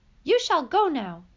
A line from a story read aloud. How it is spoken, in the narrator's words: he said fiercely